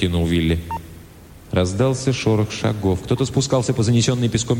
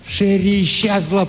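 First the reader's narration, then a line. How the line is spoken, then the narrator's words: Shout. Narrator (Russian): прокричал он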